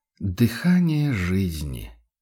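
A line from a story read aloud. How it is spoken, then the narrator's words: Blissful, drawn-out. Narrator (Russian): блаженно протянул заботливый владелец уникальной кобылы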